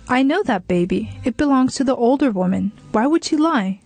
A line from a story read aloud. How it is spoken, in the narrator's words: somebody exclaimed